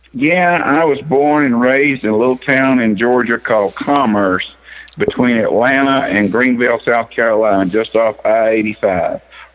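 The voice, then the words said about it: Not a typical Pittsburgh accent. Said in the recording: “accent is not your typical Pittsburgh accent”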